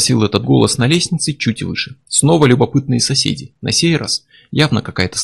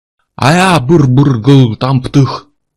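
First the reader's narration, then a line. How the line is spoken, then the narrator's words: Loud mumbled answer. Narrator (Russian): Невнятно, но громко ответил Курт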